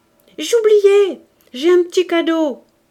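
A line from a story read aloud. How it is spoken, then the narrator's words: Uncle shouting. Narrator (French): L'oncle en criant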